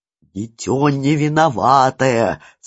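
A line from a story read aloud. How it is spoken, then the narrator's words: Hoarse whisper. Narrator (Russian): перейдя на хриплый шепот, продолжал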